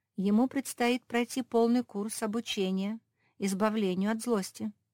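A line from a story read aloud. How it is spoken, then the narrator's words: Plain. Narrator (Russian): ответила Феня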